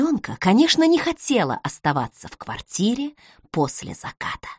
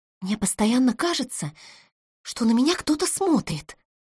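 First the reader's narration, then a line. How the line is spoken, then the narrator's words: Frightened whisper. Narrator (Russian): шептала Оля испуганно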